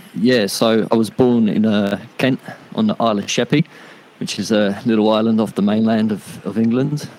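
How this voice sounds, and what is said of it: English accent. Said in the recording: “obviously you've got this accent, but you're living in Australia”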